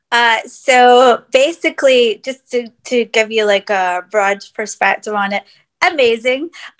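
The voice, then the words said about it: Scottish accent. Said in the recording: “I just heard the Scottish accent come through.”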